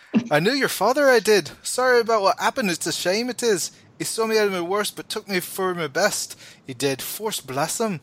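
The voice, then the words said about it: Character voice with an accent. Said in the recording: “he's got this accent. And it feels like an accent I should be doing. It's real good.”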